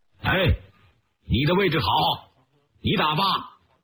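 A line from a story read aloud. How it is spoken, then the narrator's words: Loud. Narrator (Chinese): 徐参谋大声地说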